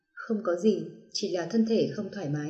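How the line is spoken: Tense, teary speech. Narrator (Vietnamese): Trong đôi mắt trong suốt vẫn còn hơi nước, thân thể khẽ cứng ngắc, mở miệng nói

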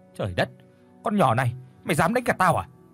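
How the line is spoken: Angry scolding. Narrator (Vietnamese): quát mắng

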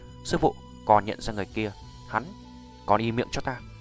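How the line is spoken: Quiet low voice. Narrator (Vietnamese): cô gái tên Tự Như lập tức nhỏ giọng

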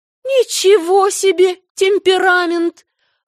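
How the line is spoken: Shocked exclamation. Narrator (Russian): воскликнула потрясенная миссис Линд

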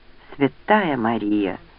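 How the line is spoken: Breathless exhale. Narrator (Russian): выдохнул Родни

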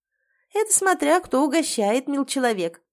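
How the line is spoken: Laughing. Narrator (Russian): засмеялась Матрена

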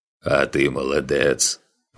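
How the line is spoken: Deep, softened bass. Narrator (Russian): пробасил шибанец, с которого налет строгости слетел

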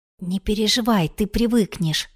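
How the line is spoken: Quiet. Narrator (Russian): тихо произнесла Оксана

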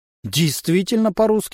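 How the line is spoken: Snorting remark. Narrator (Russian): хмыкнул дядя Саша

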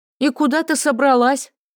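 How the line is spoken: Shouted after someone. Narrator (Russian): Вдогонку ей крикнула Дранкива

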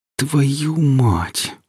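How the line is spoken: Terrified male groan. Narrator (Russian): простонал Гриф от накатившего ужаса

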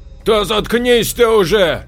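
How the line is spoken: Shouted. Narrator (Russian): кричал Леонардо

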